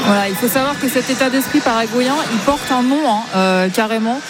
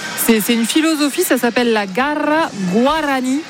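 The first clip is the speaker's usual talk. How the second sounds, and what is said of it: Rehearsed foreign accent on name. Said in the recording (French): “quel accent... Il a été travaillé.”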